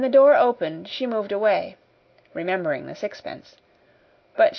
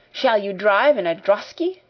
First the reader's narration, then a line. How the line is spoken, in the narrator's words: cried another